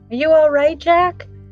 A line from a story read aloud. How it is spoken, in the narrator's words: Then he called out to the Pumpkinhead